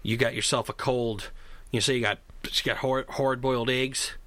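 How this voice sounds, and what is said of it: Mixed Canadian and Southern accent. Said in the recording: “I don't know what accent that was. ... You went like half Canadian, half Southern, man.”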